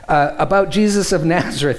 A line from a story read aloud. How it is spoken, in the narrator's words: he replied